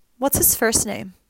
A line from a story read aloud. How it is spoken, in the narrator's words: Finn sighed, exasperated